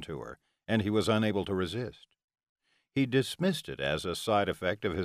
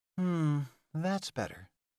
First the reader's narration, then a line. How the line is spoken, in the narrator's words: Delilah murmured